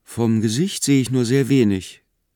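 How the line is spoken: Plain. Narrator (German): sagte K

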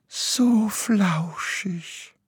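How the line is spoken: Longing sigh. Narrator (German): seufzte Graugans sehnsüchtig

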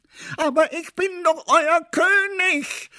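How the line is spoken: King's desperate shout. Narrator (German): schrie der König verzweifelt

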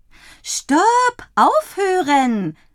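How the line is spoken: Calling out. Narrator (German): ruft Dottie

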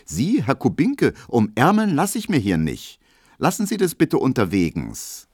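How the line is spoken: Aloof call. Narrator (German): wird die ganz unnahbar und ruft

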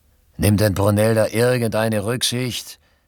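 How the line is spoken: Exclaimed. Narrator (German): rief Robinson aus

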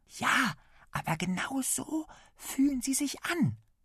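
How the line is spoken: Whispered. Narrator (German): flüstert Lasse

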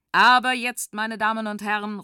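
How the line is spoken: Calls out. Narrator (German): ruft Walter

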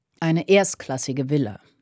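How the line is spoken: Plain. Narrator (German): sagte George

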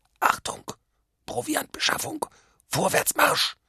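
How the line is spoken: Muffled voice. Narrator (German): sagte er mit gedämpfter Stimme

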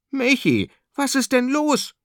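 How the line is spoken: Surprised call. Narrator (German): ruft überrascht

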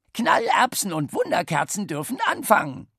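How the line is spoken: Encouraging croak. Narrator (German): krächzte die Zündreibe aufmunternd

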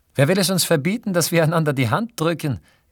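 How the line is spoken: Calling out. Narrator (German): rief Fanny und blickte sich erzürnt um

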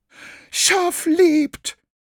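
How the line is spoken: Shriek. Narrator (German): kreischte Graugans

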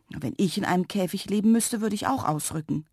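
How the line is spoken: Plain. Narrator (German): sagte Lilli

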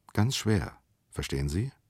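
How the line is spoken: Quiet. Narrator (German): sagte er leise in den Tango hinein

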